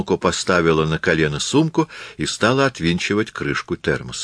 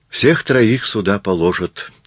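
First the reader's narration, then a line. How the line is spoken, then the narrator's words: Sigh. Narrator (Russian): вздохнул Масару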